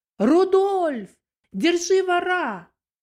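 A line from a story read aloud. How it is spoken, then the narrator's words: Loud shout. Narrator (Russian): она громко крикнула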